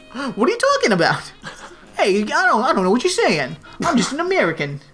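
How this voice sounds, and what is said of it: Unconvincing fake American accent. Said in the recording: “He's not from America ... your accent's really off”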